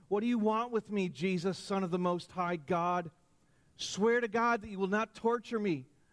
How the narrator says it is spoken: he shouted at the top of his voice

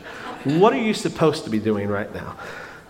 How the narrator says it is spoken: lovingly and gently ask

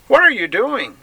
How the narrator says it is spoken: one cried nervously

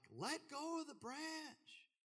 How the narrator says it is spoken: yelled back

